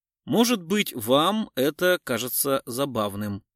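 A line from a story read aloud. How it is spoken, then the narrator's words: Plain. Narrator (Russian): сказал Гуров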